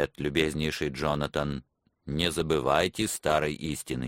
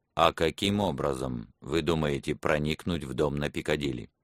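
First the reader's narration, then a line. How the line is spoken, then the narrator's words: Calm. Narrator (Russian): Профессор спокойно сказал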